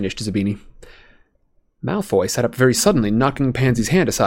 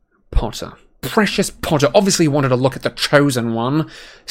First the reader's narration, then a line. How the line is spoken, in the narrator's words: sneered Malfoy